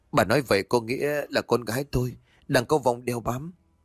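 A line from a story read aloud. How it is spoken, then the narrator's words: Trembling, strained question. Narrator (Vietnamese): toàn thân bà run run lên cầm cập, song vẫn cố gắng hỏi bà Đồng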